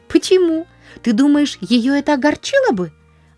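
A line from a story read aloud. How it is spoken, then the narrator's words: Worried exclamation. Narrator (Russian): воскликнула Полианна с беспокойством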